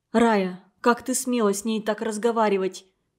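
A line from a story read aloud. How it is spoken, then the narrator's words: Quiet question. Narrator (Russian): тихо спросила Тамара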